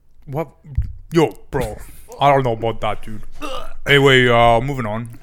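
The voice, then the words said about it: Imitated straight bro voice. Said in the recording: “I hate how straight men call each other bros and dudes all the time. ... do your voice.”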